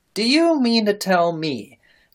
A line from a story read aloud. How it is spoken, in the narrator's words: cried Miss Merriweather, in strong agitation